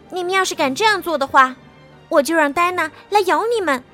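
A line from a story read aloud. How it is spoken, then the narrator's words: Loud shout. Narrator (Chinese): 爱丽丝也大叫一声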